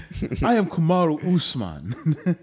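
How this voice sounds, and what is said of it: Fake movie-style African accent. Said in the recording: “the Black Panther accent, which is like a totally fake accent. Like no one in Africa really talks like that.”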